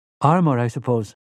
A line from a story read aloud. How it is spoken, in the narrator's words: Rosalita asked